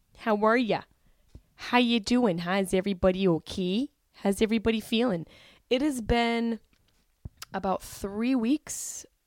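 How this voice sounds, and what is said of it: Syracuse New York accent. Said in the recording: “my Syracuse accent”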